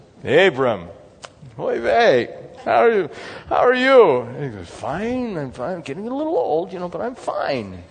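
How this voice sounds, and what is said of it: Put-on Jewish accent. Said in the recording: “I think Jesus maybe had a Jewish accent with an English language, right?”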